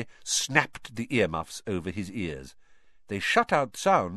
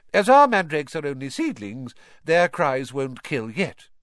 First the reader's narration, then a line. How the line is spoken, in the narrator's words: she said calmly, as though she'd just done nothing more exciting than water a begonia